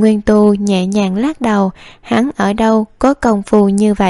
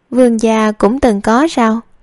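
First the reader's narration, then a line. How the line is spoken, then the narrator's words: Plain. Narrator (Vietnamese): Lưu Nguyệt hỏi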